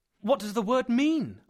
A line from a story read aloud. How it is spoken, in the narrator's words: I asked anxiously